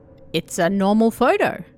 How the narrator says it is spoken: said

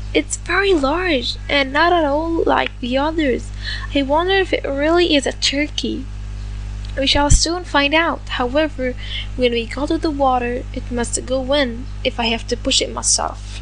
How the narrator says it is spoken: The duck exclaimed

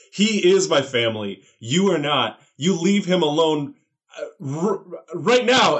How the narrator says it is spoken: shout

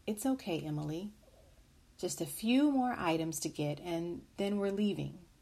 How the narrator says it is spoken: The mother quietly said

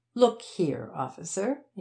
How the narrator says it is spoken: said in an offended tone

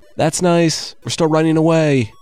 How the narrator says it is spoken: the men yelled back

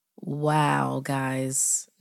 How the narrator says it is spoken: Nate laughed, trying to sound as if he wasn't about to wet himself

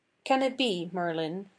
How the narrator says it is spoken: said he

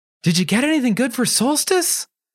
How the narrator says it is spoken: asked Charlie eagerly

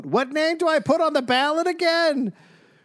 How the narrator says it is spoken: Some who would yell

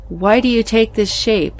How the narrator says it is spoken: I asked the entity, in a seemingly fearless tone of voice, hiding my true angst

